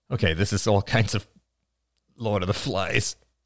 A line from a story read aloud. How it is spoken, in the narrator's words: grunted Ian